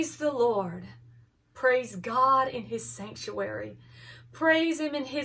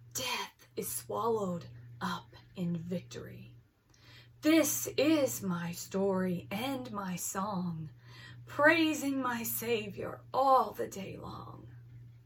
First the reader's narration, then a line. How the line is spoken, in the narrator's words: He whispered